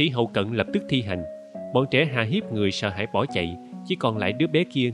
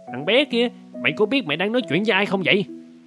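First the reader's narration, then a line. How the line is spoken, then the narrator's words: Angry loud shout. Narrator (Vietnamese): Kép ta tức giận quát lớn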